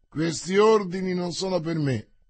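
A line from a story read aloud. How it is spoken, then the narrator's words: Plain. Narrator (Italian): rispose D'Artagnan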